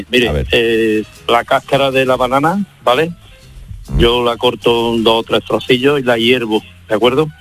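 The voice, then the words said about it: Regional Spanish accent. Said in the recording (Spanish): “Acento”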